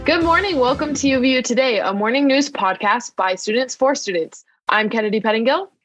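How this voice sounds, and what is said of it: Strained, fading voice. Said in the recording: “I'm just losing my voice.”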